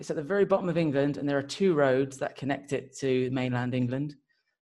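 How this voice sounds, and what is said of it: Southern English accent. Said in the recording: “Very southern. That's where I got this accent from.”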